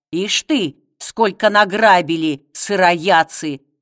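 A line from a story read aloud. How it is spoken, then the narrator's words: Grumbling. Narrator (Russian): ворчал Гасила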